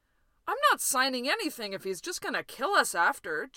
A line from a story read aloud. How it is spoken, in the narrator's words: Jim yelped